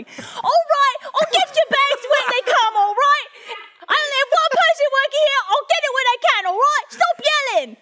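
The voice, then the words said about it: Put-on Cockney British accent, angry. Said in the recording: “a very angry British lady ... How did a Cockney make her way all the way up to Manchester? ... It's the only British accent I could do.”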